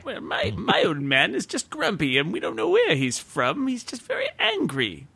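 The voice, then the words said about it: Grumpy old man voice. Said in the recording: “my old man voice”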